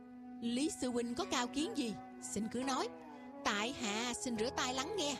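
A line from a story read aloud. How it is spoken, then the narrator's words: Smiling speech. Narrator (Vietnamese): Tiêu Dật Tài mỉm cười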